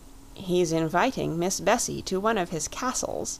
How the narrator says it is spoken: he murmured to his companion

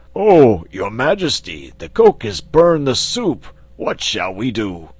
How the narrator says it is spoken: one of the giant servants exclaimed

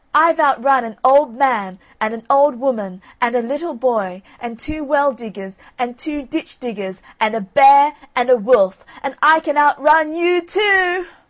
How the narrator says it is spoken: called out in a very loud voice

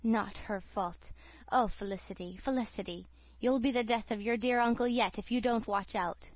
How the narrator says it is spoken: He murmured

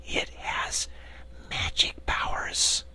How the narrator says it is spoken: she added, dropping her voice to an awed whisper

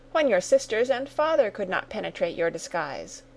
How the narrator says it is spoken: cried Sarah

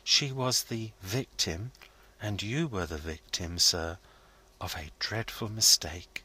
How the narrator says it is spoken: Goldstraw gently

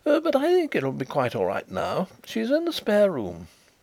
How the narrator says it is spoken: he reported with a nervous laugh

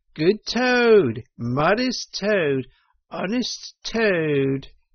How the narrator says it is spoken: shrieks of merriment

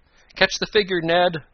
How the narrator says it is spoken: Tom cried

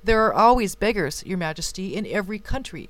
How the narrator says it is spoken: replied the chamberlain

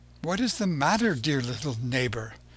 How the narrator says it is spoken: she asked him, anxiously

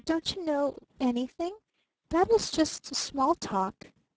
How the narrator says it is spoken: she faltered

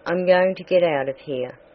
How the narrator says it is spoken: he said

